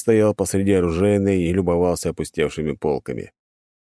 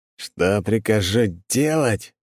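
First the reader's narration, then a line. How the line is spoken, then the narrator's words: Through clenched teeth. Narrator (Russian): стиснув зубы, процедил барон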